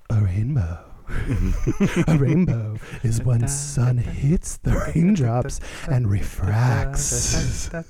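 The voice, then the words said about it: Put-on sexy voice. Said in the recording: “my ... sexy voice”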